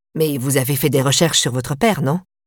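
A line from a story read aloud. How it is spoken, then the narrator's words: Plain question. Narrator (French): demanda-t-il à Adeline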